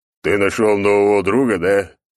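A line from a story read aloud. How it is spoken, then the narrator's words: Deep smiling voice. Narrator (Russian): пробасил он с улыбкой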